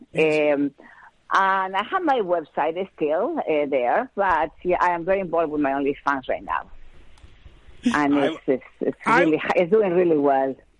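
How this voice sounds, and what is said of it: Sexy-sounding accent. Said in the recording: “Don't you love that accent? ... I love that accent. ... I can have ... read a phone book right now, and it would be sexy to me.”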